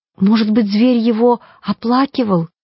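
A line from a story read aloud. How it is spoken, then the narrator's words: Uncertain suggestion. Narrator (Russian): неуверенно предположила Коломбина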